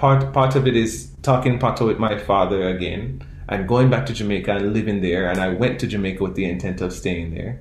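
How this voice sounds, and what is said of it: Caribbean accent. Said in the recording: “I don't always talk like this my whole life. I've not had a Caribbean accent my whole life ... I am growing to become more comfortable talking with my Caribbean accent”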